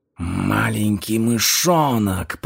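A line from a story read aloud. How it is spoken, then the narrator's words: Hissed. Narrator (Russian): прошипел он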